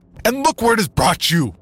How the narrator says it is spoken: he shouted

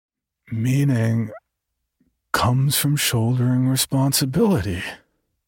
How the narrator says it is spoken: Stephen slurred

